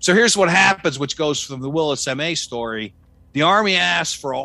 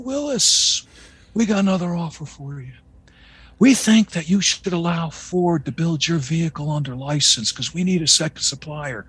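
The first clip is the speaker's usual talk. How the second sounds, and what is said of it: Godfather-style mob boss voice. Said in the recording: “my last Godfather imitation”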